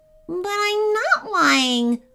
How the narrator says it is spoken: whined Clunky

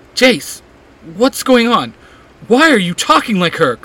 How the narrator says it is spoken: Clary cries out

